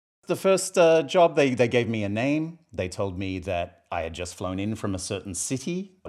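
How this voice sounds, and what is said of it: South Boston accent. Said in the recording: “your accent really does speak Boston. ... It's South Boston.”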